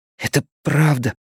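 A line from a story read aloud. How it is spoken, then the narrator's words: Whispering. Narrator (Russian): прошептал Эдди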